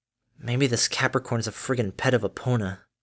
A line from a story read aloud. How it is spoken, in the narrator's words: the cynic inside her projected soul self murmured